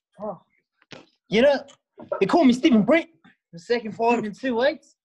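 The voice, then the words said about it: Put-on New Zealand accent. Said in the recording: “Come from New Zealand, Taranaki. People are probably wondering why I'm talking so weird. Well, in New Zealand, you sort of talk like you're running out of breath... the professor of the accent class”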